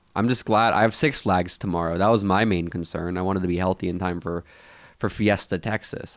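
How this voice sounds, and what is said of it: Congested, stuffy-nosed voice. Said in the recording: “the lingering runny nose is not the most pleasant thing in the world. I can hear it in my voice”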